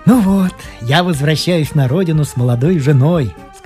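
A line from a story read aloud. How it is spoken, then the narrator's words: Plain. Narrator (Russian): сказал он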